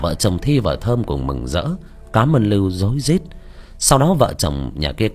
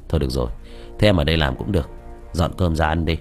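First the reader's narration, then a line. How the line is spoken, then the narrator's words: Sighing. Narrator (Vietnamese): Lưu thở dài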